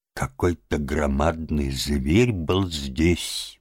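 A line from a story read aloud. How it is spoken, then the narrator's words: Puzzled mutter. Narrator (Russian): бормотал он недоуменно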